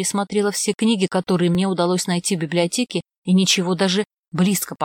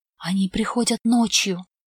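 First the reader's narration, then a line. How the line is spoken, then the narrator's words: Whispering. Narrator (Russian): зашептала Оливия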